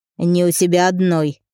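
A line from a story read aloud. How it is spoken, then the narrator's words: Snapped. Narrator (Russian): огрызнулся он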